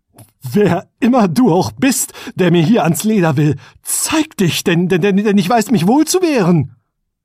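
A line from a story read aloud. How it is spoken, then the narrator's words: Called, trembling voice. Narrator (German): rief mit bebender Stimme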